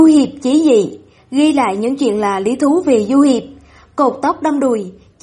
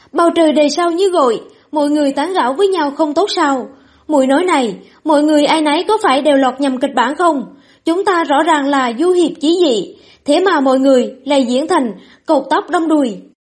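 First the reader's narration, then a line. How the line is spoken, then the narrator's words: Displeased shout. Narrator (Vietnamese): Lý Nghiên bất mãn hét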